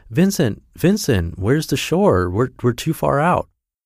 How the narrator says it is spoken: Anton cries out

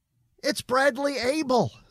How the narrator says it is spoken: exclaimed

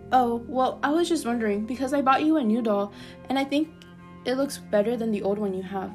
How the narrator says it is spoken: say nervously

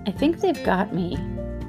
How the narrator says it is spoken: she said sadly

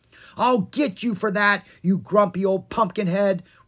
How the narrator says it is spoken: shouted as she ran from her cottage

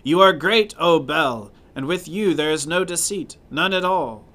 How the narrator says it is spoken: the king looked at the table and shouted in a loud voice

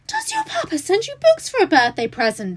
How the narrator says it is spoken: She exclaimed

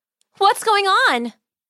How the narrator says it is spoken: Margaret cried

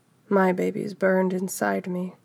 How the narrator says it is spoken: she whispered to the wind

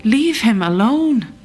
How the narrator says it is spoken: I should have cried

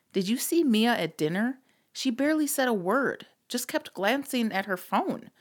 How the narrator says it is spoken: Patty said, her voice laced with concern

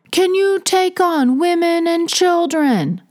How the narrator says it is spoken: the man put his hands up to his mouth and yelled through the storm

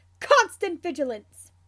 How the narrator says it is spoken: shouts

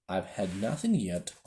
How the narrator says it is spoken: Alice replied in an offended tone

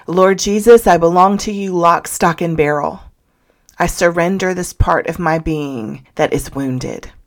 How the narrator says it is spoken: In response to her heartbreak, called out to the Lord, saying

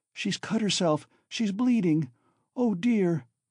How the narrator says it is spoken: cried Sonya

